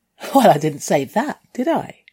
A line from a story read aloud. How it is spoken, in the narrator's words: I giggled